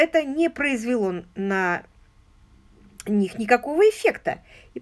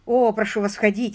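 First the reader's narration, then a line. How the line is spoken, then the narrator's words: Plain, young man. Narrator (Russian): сказал юноша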